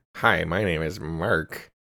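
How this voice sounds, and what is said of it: Imitates another person's voice, nasal. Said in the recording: “No, I think you got to go higher ... It's like, you know, it's a little more like nasally.”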